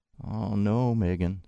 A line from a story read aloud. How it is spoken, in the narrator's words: said Mom